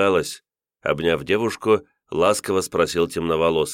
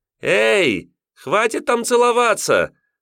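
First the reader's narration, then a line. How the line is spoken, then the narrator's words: Laughing shout, young woman. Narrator (Russian): Со смехом закричала симпатичная шатеночка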